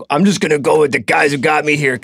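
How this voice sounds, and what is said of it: Gruff football coach voice, New York accent. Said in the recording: “That's a good football coach voice. ... you're doing all of a sudden like a New York accent.”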